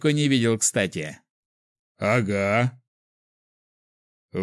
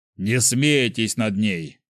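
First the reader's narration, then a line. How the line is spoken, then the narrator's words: Calm. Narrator (Russian): спокойно сказал Бихолдер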